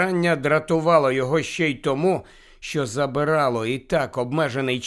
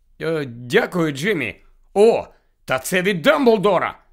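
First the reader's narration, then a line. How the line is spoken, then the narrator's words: Excited exclamation. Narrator (Ukrainian): схвильовано вигукнув Гаррі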